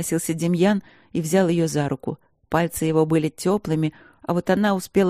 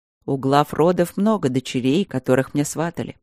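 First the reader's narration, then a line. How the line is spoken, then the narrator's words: Calm reply. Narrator (Russian): спокойно отозвался ее жених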